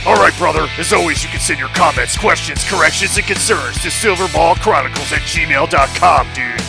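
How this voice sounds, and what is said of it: Hulk Hogan impression. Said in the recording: “my Hulk Hogan impersonation”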